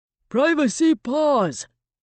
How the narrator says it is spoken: hollered

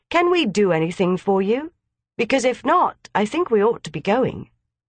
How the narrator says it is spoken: said Gerald kindly

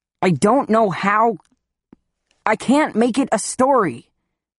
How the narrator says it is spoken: shout

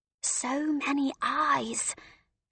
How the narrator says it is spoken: Celie whispered back

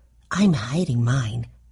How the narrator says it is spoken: Elizabeth Tilly whispered

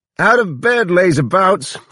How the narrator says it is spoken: she cried

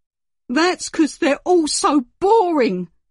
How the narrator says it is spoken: screeched Henry

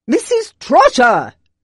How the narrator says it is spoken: shouted again

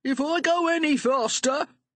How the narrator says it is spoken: he shouted

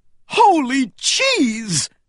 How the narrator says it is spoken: cried

